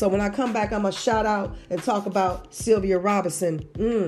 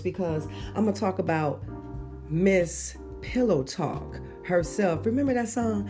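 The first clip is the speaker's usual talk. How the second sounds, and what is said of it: Sultry, seductive voice. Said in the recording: “Now I got to change it to my sexy voice”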